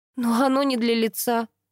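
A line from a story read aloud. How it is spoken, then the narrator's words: Sigh. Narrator (Russian): вздохнула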